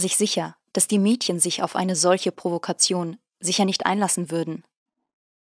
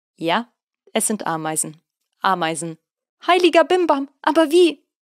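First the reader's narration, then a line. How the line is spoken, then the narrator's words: Laughing statement. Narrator (German): stellte lachend fest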